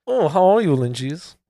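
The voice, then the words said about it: Put-on German accent. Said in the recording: “What's with the German accent”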